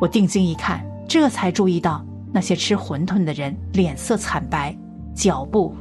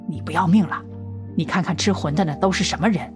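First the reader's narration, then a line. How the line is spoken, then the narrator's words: Low voice. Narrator (Chinese): 张扎纸低声说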